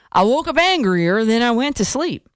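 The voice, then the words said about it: Put-on Texas accent. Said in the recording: “I'm doing the Texas accent,”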